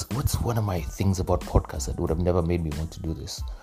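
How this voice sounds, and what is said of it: Strong American-sounding accent. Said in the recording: “It's my accent. I'm Kenyan, but I have a very strong American accent ... my Kenyan accent became very strong again ... picked up the Ugandan enunciations and pronunciations”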